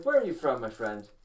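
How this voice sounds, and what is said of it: Count Dracula-like accent. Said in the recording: “In like English, but sounds like Count Dracula. That's the accent.”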